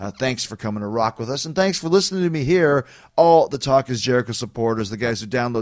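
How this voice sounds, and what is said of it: Usual voice. Nothing is said of it.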